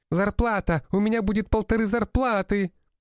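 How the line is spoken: Maid nearly squealing. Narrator (Russian): Почти визжала моя горничная казначей

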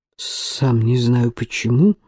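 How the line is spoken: Mutter. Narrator (Russian): пробормотал Эсме

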